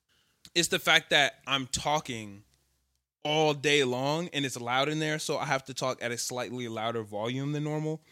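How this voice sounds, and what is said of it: Hoarse, strained, partly lost voice. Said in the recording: “Jesus, my voice. Yo, I lost my voice while I was out in Atlanta, so I've been struggling. ... so it's just enough to strain my voice ... that shit, I lost my voice.”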